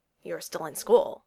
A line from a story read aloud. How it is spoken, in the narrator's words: said evenly